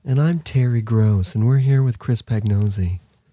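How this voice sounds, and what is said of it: Calm public radio host voice. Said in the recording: “try my NPR voice ... that's a really nice sound you've got”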